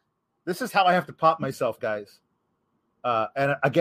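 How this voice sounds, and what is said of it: Usual voice. Nothing is said of it.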